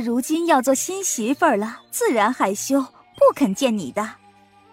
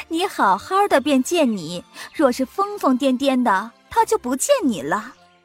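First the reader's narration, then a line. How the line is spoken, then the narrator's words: Amused yet flustered. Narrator (Chinese): 凤姐又好笑又着忙，便道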